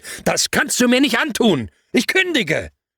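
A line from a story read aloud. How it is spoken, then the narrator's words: Shouting into phone. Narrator (German): konnte ich nicht anders, als ins Telefon zu brüllen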